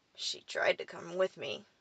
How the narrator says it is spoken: I grunted

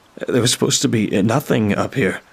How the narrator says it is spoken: I stammered out

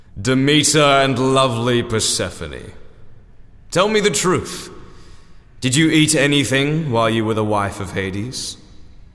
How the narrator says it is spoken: He boomed

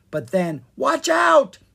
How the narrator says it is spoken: Sprite yelled

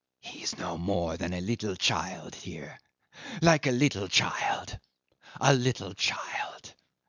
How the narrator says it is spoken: whispered forcibly

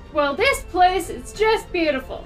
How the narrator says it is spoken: cried the Duchess

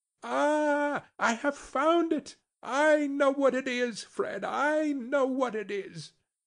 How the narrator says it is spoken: the plump sister, falling into a similar state, cried out

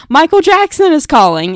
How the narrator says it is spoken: she would yell

